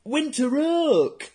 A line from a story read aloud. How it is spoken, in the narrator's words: Savushkin repeated, without noticing either his classmates' laughter or the teacher's peremptory shout